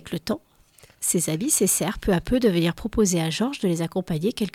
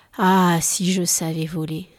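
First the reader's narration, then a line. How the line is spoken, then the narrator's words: Sighing. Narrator (French): soupira-t-il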